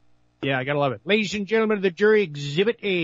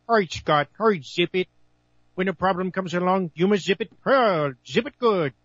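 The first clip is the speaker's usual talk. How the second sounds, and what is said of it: Mike Myers as Dr. Evil impression. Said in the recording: “That's me doing an impression of Mike Myers doing Dr. Evil”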